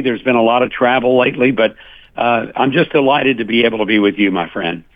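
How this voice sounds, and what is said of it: Slightly scratchy voice. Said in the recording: “Forgive my voice, a little scratchy”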